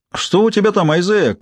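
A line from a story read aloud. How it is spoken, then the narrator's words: Shouting. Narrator (Russian): крикнул в туннель Джеральд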